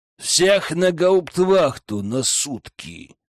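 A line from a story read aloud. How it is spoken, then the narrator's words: Witch growling. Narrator (Russian): прорычала ведьма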